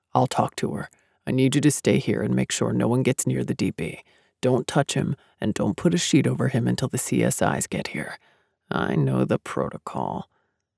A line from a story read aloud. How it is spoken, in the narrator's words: mumbled